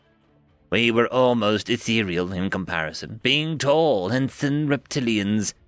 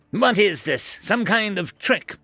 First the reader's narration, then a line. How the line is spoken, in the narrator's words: shouted